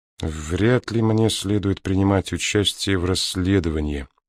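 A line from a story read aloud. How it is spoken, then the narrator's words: Mutter. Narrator (Russian): пробормотал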